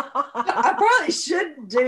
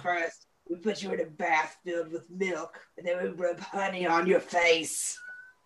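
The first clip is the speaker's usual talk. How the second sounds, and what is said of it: Deep, sinister character voice. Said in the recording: “I have a deep voice anyway. I probably just sounded like Satan.”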